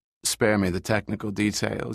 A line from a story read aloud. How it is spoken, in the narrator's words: Yeager sighed patiently